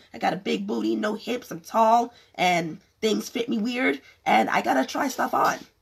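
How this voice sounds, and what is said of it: Strained, fading voice. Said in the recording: “I'm losing my voice ... if you see a decline in my voice”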